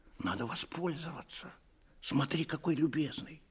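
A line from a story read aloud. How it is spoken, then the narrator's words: Quiet suggestion. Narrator (Russian): тихо предложил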